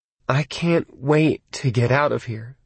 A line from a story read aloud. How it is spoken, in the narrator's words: Lee said, looking around nervously